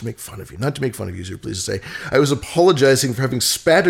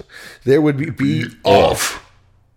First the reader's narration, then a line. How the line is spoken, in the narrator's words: yelled the general turning suddenly purple and shaking all over